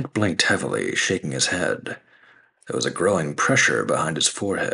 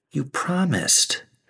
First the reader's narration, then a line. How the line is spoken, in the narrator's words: pleaded